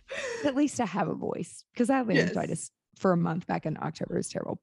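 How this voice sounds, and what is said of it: Raspy, low voice. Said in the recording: “it's so raspy. Like when I talk like 3 days straight ... my voice gets super raspy ... I sound like a man”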